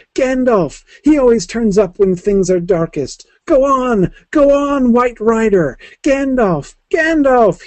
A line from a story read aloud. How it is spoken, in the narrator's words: shouted wildly, like an onlooker at a great race urging on a runner who is far beyond encouragement